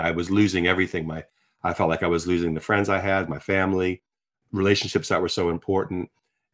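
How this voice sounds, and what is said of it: American accent. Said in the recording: “here I am as an American living in the UK now for over 35 years ... you can hear my accent. People still assume I got off the plane yesterday.”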